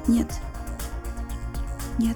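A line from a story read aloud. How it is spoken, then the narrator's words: Quiet. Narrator (Russian): неожиданно для себя тихо сказала Анна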